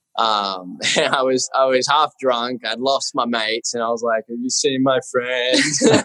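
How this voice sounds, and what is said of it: Australian accent. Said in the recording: “you weren't going to be such an Aussie bloke because you've lived there for so long ... I still got my accent.”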